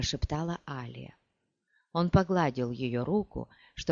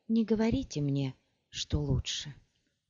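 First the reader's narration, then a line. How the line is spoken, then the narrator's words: Breathless exhale. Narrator (Russian): выдохнула она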